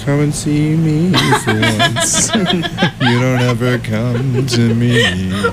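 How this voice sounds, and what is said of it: Lounge-singer style crooning impression. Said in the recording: “like, Richard Cheese impersonation?”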